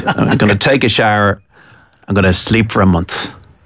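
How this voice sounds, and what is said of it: Al Pacino impression. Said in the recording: “Al Pacino ... I'm not going to try and do a bad impression”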